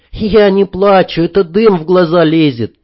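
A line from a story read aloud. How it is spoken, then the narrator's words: Angry. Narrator (Russian): сердито сказала Танюшка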